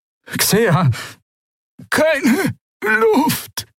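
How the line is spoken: Croaking, breathless. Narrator (German): krächzte sie

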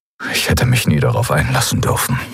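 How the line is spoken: Murmured. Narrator (German): murmelte er

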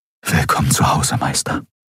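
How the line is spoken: Whispered. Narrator (German): flüsterte er

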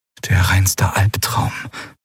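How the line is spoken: Whisper. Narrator (German): flüsterte Lien

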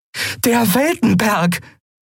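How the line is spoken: Called out. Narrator (German): rief Andriel

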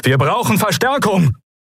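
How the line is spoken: Called out. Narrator (German): rief Helios

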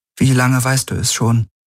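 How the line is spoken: Strained, barely calm question. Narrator (German): Sie wusste nicht, wie sie ihre Stimme weitgehend ruhig halten konnte, als sie fragte

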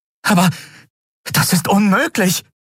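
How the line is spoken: Exclaiming. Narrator (German): rief sie aus

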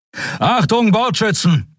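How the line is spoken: Shout. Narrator (German): rief

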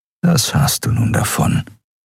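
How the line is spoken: Inner whispering voice. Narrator (German): flüsterte eine Stimme in seinem Kopf

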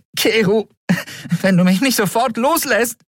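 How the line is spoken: Called out. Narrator (German): rief Endriel

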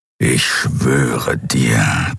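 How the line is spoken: Growling. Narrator (German): knurrte der Skriar

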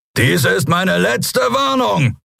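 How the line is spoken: Roaring. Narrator (German): brüllte er

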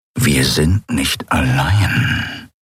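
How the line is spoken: Growled. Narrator (German): knurrte er

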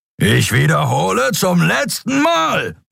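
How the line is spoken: Roar. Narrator (German): brüllte Sron

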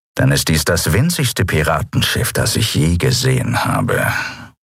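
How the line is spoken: Grumbling. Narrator (German): brummte Chasu

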